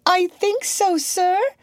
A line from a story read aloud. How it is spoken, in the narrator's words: said Peoria timidly